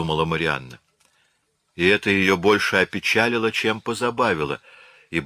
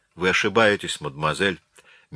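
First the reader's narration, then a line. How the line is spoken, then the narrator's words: Said gently. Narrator (Russian): мягко сказал Бобеш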